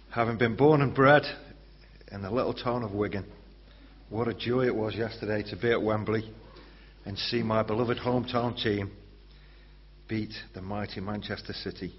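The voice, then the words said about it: Slightly hoarse voice. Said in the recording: “I'm feeling a little bit hoarse ... we did shout and scream and bellow”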